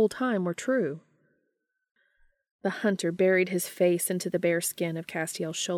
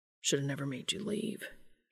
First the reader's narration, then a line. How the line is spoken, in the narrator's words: he muttered weakly